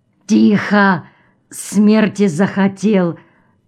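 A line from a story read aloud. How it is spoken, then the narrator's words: Halting breathless exhale. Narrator (Russian): выдохнул прерывисто незабудный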